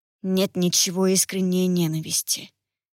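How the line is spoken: Muffled, hollow. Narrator (Russian): глухо сказал Марион

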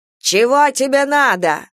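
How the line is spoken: Shouted. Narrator (Russian): закричал

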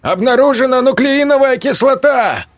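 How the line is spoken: Shouted over a siren. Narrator (Russian): крикнул Берг, перекрывая вой сирены

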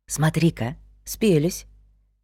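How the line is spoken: Whispered. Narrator (Russian): Вик шепнул

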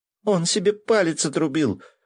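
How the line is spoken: Excited report. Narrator (Russian): взволнованно сообщила Оля

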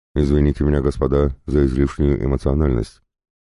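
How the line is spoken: Calmer tone. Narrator (Russian): произнес Дмитрий Александрович уже более спокойным тоном

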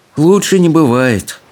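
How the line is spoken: Gloomy reply. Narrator (Russian): уныло отозвался Икинг

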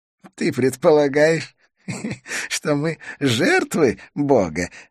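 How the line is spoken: Laughing. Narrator (Russian): рассмеялся Идрис

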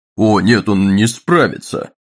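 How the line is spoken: Curt joyless laugh. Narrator (Russian): Дагни снова рассмеялась, столь же отрывисто и безрадостно

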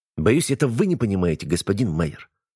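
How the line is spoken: Sharp, fed-up interruption. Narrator (Russian): резко оборвал его Никонов, которому до смерти надоел этот непрофессиональный театр

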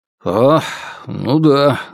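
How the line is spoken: Muttering. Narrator (Russian): забормотал полковник

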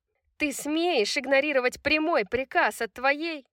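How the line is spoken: Screaming. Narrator (Russian): заорала Сабина

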